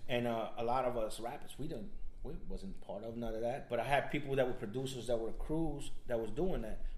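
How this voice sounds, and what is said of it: South Florida (Opa-locka) accent. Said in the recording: “I couldn't tell. ... That sounded like ... An Opa-locka accent”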